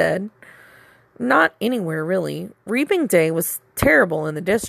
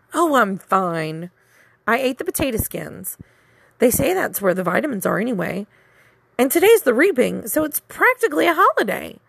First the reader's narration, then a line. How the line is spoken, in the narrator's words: she said cheerfully